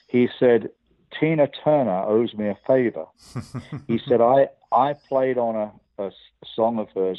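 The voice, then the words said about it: English accent. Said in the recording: “my bad English accent”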